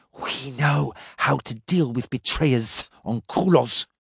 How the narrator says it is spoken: the Shuriga muttered

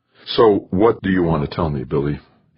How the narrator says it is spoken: asked wearily

